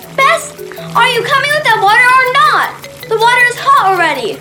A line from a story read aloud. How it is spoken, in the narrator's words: she shouted